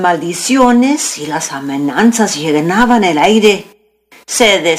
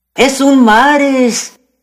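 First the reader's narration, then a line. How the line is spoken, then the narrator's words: Cowboys shouting. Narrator (Spanish): gritaban los vaqueros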